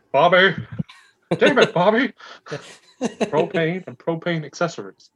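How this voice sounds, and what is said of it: Hank Hill impression. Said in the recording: “that bulldog would look like fucking Hank Hill ... do your impression.”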